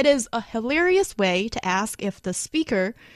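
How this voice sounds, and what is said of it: Usual voice. Nothing is said of it.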